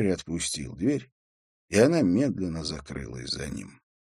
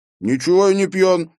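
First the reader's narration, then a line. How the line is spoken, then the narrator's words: Angry objection. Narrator (Russian): сердито возразил Эйстин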